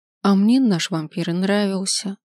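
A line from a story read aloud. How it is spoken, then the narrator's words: Sighed, younger woman. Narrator (Russian): вздохнула более молодая леди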